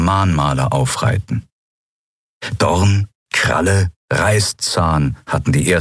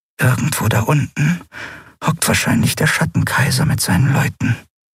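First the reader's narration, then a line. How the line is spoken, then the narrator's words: Fearful whisper. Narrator (German): flüsterte sie, als fürchte sie, der große Unbekannte könne sie hören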